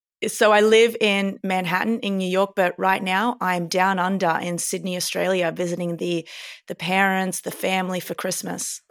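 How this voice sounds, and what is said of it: Australian accent. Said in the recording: “Amazing accent replication for somebody who lives in New York. Are you an Aussie native?”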